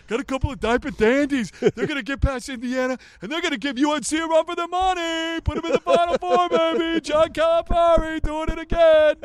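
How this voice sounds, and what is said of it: Dick Vitale impression. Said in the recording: “That's a pretty good damn impression”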